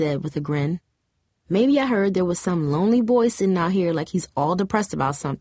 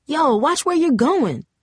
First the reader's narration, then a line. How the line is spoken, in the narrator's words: Lizelle hollered